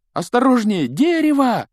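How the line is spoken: Alarmed yell. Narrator (Russian): завопил Гарри

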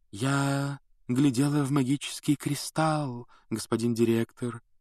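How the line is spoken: Mystical otherworldly voice. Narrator (Russian): ответила Трелони мистическим потусторонним голосом

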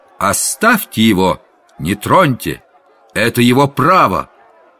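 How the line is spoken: Shouted. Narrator (Russian): крикнул

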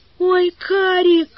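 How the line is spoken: Suddenly whimpered. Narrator (Russian): вдруг захныкала Валя

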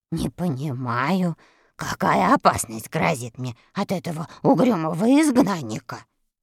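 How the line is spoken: Grumbling. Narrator (Russian): ворчал Страшила

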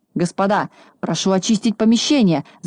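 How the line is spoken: Frightened shout. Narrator (Russian): закричал испугавшись Хабс

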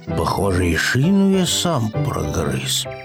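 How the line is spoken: Upset mumble. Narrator (Russian): пробормотал расстроенный Пэтсон

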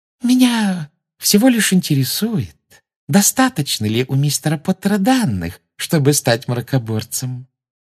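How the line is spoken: Sweet sing-song voice. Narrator (Russian): сладким голоском пропела Амбридж

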